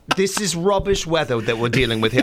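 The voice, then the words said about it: Put-on accent. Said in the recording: “take the accent and embrace it like you're doing”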